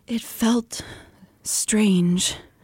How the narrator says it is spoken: Elaine breathed

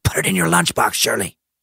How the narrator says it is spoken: Juju hisses

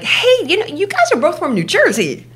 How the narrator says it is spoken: our friend is chirping like

